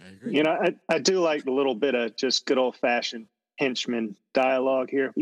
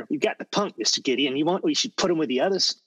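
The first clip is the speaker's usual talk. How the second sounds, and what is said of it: Good henchman character voice. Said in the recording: “That's a good henchman impression there.”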